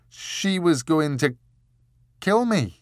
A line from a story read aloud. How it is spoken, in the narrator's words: stammered Richard